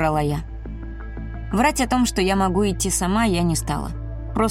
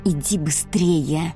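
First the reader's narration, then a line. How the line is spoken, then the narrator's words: Hissed. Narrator (Russian): зашипела Эрика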